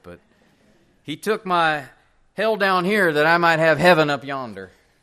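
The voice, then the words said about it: Southern preacher twang impression. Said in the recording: “I don't know if I can match his accent ... Actually, that was more of a Steve Lawson twang”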